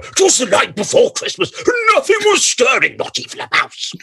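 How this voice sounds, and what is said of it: Imitated voice, pitch rising and falling. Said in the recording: “my Brian Blessed impersonation ... it was all up and down and up and down”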